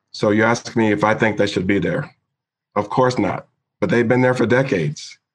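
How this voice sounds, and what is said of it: Emotional, choked-up speaking voice. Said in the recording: “I'm getting a little emotional here”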